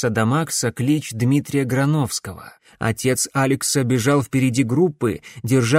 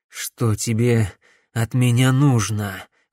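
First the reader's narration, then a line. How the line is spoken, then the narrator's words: Hoarse question. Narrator (Russian): хрипло спросил он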